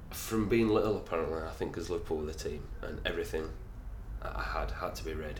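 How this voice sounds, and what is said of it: Liverpool accent. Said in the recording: “with the accent, it will give away that I'm a Liverpool fan.”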